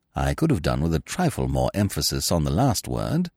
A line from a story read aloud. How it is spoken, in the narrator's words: said Smith gently